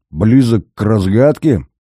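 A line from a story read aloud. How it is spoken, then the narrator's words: Through clenched teeth. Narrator (Russian): Зверев процедил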